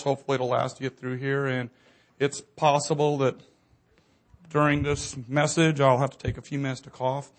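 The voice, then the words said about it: Slightly hoarse voice. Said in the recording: “I've been ill for a while. ... My voice is still a little hoarse.”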